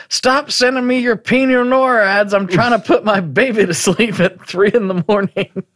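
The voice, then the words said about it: Decent impersonation. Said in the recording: “It's not a bad impersonation.”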